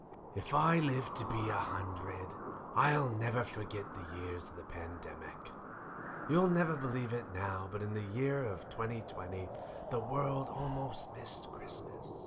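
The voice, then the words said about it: Villainous character voice with odd accent. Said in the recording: “What is this accent? ... are you a villain? ... You sound like a burglar.”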